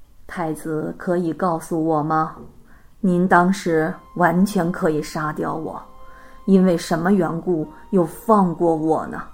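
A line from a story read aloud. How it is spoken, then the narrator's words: Respectful question. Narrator (Chinese): 范莫达王向长生太子请教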